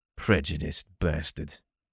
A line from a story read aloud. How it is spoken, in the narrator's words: he muttered